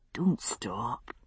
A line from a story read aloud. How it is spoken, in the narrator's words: he murmured, eyes half closed